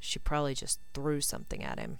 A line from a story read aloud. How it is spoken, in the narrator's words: muttered Blaze